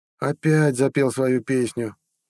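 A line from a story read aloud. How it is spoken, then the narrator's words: Heavy sigh. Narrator (Russian): тяжело вздохнула Устра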